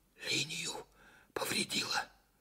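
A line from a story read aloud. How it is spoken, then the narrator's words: Whispered. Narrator (Russian): почему-то шепотом сказал Караваев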